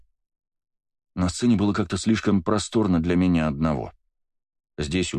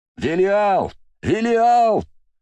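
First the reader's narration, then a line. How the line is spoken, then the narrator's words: Distant shouting. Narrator (Russian): закричали откуда-то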